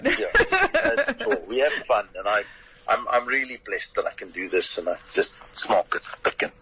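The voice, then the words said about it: Distinctive own regional accent. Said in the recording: “you've just got the way to say it as an accent. I can't do the accent. ... the accent, I'm afraid, is all yours.”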